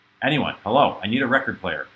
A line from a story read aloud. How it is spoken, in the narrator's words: shouted Felix